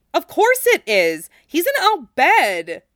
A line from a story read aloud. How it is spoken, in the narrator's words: exclaimed, throwing her hands up in the air